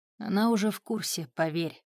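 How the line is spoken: Calm and gentle. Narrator (Russian): Клык говорил спокойно и мягко

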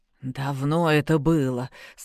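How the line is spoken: Strained, hiding weakness. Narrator (Russian): стараясь не показывать врагу свою слабость, выдавил Басаргин

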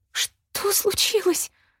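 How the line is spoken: High trembling voice. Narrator (Russian): высоким и дрожащим голосом спросила Шэрон

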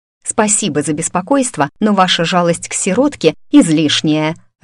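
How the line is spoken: Barked, harsh. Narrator (Russian): рявкнула я

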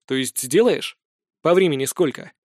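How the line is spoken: Smirking grunt. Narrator (Russian): хмыкнул Гроблин

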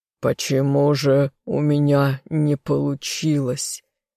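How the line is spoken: Hoarse captive. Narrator (Russian): хрипло произнес пленник

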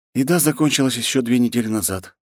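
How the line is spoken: Sighing. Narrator (Russian): вздохнул он

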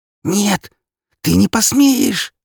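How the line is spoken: Hissed. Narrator (Russian): прошипела она

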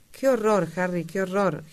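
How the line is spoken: Moan. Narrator (Spanish): gimió Dorian

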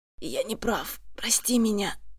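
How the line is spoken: Hoarse voice. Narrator (Russian): хрипит он

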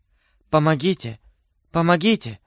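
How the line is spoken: Whispered. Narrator (Russian): шептала Бонасье

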